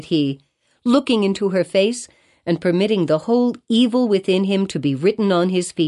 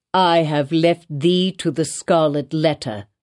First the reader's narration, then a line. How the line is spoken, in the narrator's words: replied Roger Chillingworth